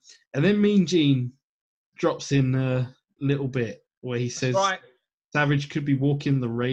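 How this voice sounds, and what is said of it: Usual voice. Nothing is said of it.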